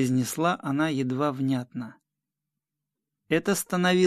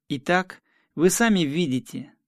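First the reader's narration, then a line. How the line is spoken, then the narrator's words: Forced firmness, strained smile. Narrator (Russian): сказал я сколько мог твердым голосом и с принужденной усмешкой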